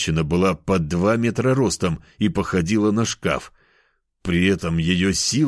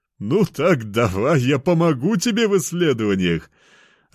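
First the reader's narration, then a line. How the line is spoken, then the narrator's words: Booming laughter. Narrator (Russian): Расхохоталась она, да так, что пол завибрировал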